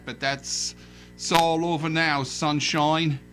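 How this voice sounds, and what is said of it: Put-on Cockney accent. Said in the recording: “That's my Cockney accent.”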